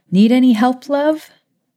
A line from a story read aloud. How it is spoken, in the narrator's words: Maya called out